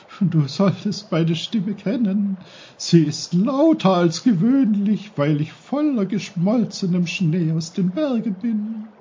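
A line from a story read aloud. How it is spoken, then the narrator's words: Giggling. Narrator (German): kicherte der Bach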